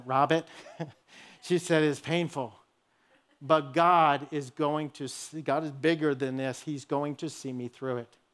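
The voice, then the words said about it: Imitated New England accent. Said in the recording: “in her New England accent,”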